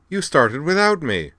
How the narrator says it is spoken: cried the Minbari girl in a lightly accented tone of mock indignation

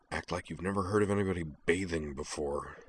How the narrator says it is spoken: Corwin muttered

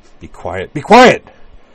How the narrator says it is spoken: Utna snapped

